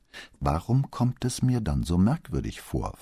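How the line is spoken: Plain question. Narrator (German): fragte Brunetti

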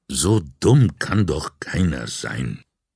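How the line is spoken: Muttering to himself. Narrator (German): Vianello vor sich hin murmeln

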